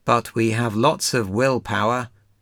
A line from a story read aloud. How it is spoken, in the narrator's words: said Frog